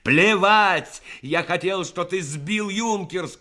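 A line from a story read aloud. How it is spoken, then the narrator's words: Shouted. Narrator (Russian): крикнул Рассохин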